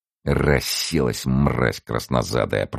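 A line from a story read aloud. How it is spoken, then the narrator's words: Sailor muttering. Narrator (Russian): пробормотал, один из военных моряков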